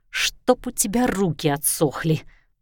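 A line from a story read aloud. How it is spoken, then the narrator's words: Hissing. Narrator (Russian): прошипела она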